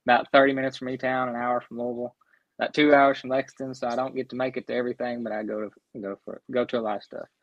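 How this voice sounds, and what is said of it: Southern American accent. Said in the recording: “I know I have a southern accent ... you sound like you're from my neck of the woods. I'm, from Eastern Kentucky.”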